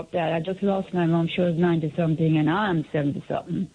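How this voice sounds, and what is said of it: Mumbled, unclear speech. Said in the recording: “you're mumbling”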